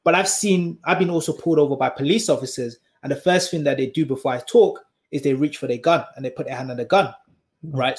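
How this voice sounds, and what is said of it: Black British accent. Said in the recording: “my accent. ... the way I sound ... He's a British, black British person”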